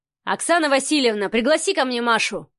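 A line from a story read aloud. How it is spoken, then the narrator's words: Barked. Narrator (Russian): рявкнул Адмиралов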